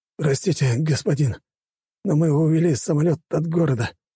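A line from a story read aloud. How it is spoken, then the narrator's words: Hoarse wheeze. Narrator (Russian): прохрипел он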